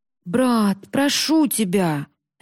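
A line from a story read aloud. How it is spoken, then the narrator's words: Moaning plea. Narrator (Russian): застонал Масаши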